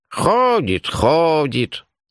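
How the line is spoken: Mild, unmalicious grumble. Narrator (Russian): На удивление беззлобно проворчала она

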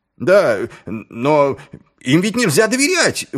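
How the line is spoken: Shouted. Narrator (Russian): выкрикнул один из нападавших

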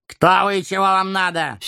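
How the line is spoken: Angry booming giant. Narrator (Russian): сердито прогремел гигант

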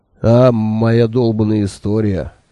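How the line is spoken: Snorting scoff. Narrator (Russian): хмыкнул он

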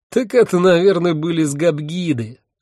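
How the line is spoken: Laughing. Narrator (Russian): рассмеялся мой спутник

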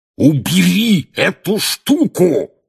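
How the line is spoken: Roared right into ear. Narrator (Russian): проревел дядя Вернон прямо в ухо Гарри

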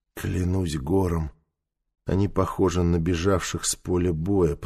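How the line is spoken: Muttering. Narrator (Russian): пробормотал Нефер

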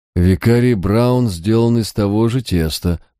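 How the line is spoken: Gloomy reply. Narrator (Russian): мрачно откликнулся Харснет

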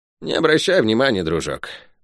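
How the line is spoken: Sigh. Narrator (Russian): вздохнул убийца Сариты

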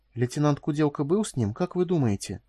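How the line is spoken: Quiet question. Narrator (Russian): тихим голосом спросила Дру

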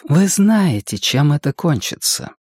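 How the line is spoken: Quiet interruption. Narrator (Russian): Все так же тихо перебила его Энея

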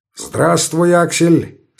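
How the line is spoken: Cheerful. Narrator (Russian): сказал он весело

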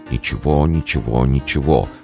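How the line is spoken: Whispered repetition. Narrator (Russian): повторял он шепотом

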